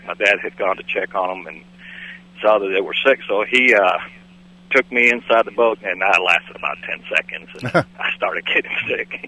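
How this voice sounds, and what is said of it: Cuban accent. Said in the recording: “From that accent, it sounds like you're from southern Cuba.”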